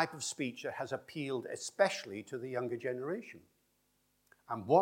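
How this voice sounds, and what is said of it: Usual voice. Nothing is said of it.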